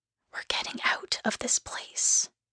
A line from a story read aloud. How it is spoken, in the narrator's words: she whispered in my ear